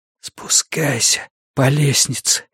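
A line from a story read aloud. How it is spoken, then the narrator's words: Strangled whisper. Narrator (Russian): сдавленно прошептал он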